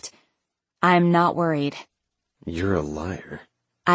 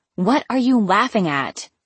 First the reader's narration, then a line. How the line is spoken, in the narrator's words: I snapped